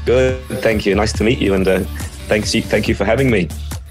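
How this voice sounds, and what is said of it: Australian accent with slight mixed twang. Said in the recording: “another Aussie accent ... my accent often gets a little bit different twangs ... it still has the underlying Aussie accent under there. Sometimes I get mistaken a little bit for South African”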